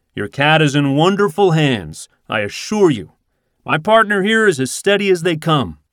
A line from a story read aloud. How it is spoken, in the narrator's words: yells Silvestri